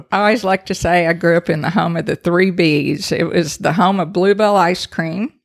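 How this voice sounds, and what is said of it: Noticeable non-New Jersey regional accent. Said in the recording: “obviously you can tell from the accent, you did not grow up in New Jersey.”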